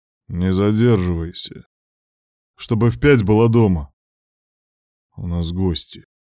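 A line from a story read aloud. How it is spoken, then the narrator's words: Gloomy speech. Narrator (Russian): проговорил мрачно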